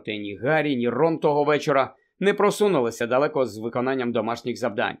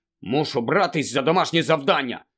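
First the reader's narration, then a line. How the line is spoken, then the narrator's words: Angry grumble. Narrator (Ukrainian): сердито буркнув Рон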